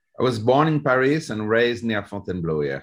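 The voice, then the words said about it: French accent. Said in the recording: “you got a good old French accent there”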